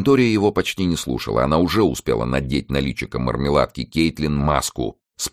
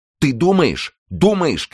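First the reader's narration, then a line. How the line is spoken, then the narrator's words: Shouted. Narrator (Russian): крикнула она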